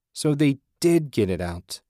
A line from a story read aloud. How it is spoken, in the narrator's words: he exclaimed